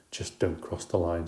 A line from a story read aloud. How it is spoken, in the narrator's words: she muttered